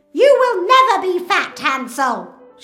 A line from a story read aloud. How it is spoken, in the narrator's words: shouts